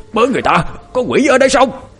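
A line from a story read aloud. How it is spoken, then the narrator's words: Old man's startled cry. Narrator (Vietnamese): Ông lính già chỉ kịp kêu lên một câu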